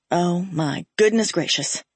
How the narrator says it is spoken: he muttered distractedly

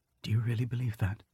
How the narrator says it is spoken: Robin whispered

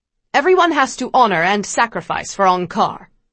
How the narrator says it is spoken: the soldiers yell

